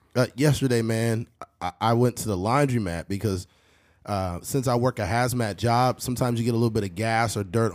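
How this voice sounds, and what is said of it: Worn-out, nearly lost voice. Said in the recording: “apologize for my voice. I've been sick for the last few days ... I'll use the last of my voice ... Why he lost his voice.”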